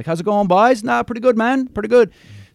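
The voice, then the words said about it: Fast Newfoundland Irish-English accent. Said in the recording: “The Newfoundland accent is very strong ... sort of a mix of the Irish and English accent ... they kind of talk like this, and they talk really fast ... it's kind of got a bit of an accent”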